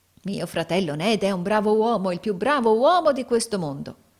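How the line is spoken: Exclaimed. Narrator (Italian): esclamò Carlo Cheeryble

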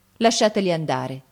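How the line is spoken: Cold. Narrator (Italian): disse Gianni freddamente

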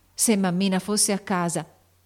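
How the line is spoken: Terrified exclamation. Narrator (Italian): esclamò Joe pensando con terrore

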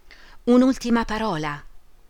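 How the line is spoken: Pleading. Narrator (Italian): Orlandi supplicò

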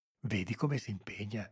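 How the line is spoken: Murmur. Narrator (Italian): sentì mormorare Salvatore

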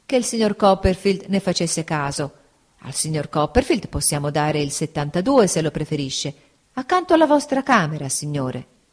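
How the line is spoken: Apologetic reply. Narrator (Italian): rispose il cameriere sempre in tono di scusa

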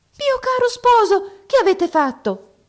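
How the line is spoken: Surprised princess exclaiming. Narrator (Italian): esclamò la principessa nella sua sorpresa

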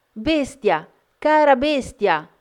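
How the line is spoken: Dismayed frantic screaming. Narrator (Italian): sgomenta, pensando di avergli cagionato la morte, urlando

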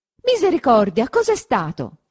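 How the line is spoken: Shouting. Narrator (Italian): gridò Perpetua

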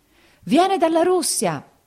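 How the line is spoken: Crowd howling like wounded beasts. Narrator (Italian): esclamarono tutti urlando come belve ferite

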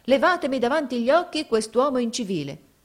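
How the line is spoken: Exclaimed. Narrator (Italian): esclamò essa

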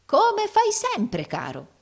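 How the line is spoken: Unguarded exclamation. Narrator (Italian): esclamò il fratello Carlo, dimenticando interamente la sua dignità simulata

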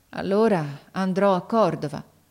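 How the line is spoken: Resigned sighing boy. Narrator (Italian): Il ragazzo mise un sospiro, poi disse con rassegnazione

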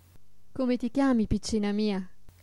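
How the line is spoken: Asked. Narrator (Italian): le chiese la fata

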